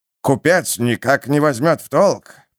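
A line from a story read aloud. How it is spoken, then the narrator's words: Through gritted teeth. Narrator (Russian): процедил корабельщик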